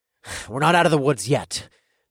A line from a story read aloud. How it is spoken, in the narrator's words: growled